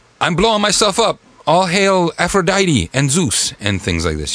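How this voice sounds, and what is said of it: Vague put-on accent. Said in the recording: “a non-distinct accent. I was just doing a voice.”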